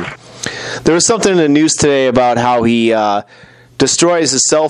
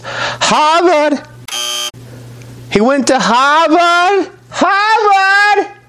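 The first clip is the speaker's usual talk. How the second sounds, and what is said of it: Weak attempt at Boston accent. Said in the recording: “I lost my ability to do a shitty, even a shitty Boston accent. Let me try this... that's closer, but still not that good”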